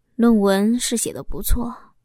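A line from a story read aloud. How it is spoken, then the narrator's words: Hesitant sighing husband. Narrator (Chinese): 老公犹豫了一下，叹息着说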